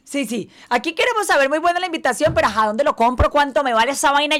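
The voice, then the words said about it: Colombian Spanish accent. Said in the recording (Spanish): “me encanta tu acento. ¿Eres venezolana? ... Colombiana.”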